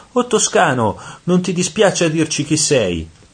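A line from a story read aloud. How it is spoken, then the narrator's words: Soul shouting. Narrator (Italian): Una di queste anime, sentendo parlare toscano, gridò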